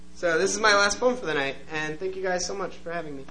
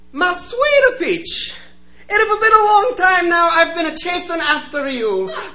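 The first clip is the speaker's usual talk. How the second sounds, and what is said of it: Put-on accent for a persona. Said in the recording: “This is a persona piece, and I try to do a consistent accent, but I can't promise that I will pull it off.”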